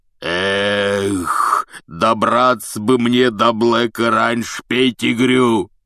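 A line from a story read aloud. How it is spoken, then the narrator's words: Roared. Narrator (Russian): взревел Хагрид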